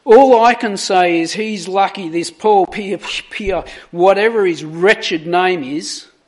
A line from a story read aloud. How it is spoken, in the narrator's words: overcome by a sense of bitter injustice, Cronin exclaimed